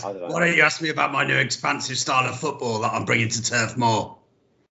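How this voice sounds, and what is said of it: Imitates another person's voice. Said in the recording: “always one impersonation, one accent. ... That's pretty good, actually, to be fair. That's pretty good.”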